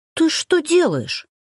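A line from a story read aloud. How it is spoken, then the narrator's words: Indignant hiss. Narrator (Russian): шипит Макс возмущенно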